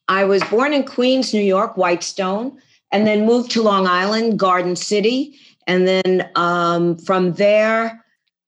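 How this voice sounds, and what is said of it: Long Island New York accent. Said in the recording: “you still have the accent. I'm from Long Island originally.”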